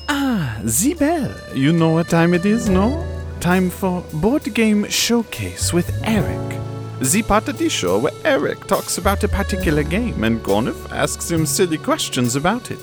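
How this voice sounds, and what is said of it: Poor put-on French accent. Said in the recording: “This French accent is terrible.”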